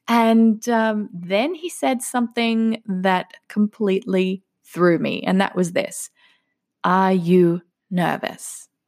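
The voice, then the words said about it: Australian accent. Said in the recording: “he made fun of my accent. ... oh, you're from Australia, are you, mate? ... I sound a little bit different from the Americans here”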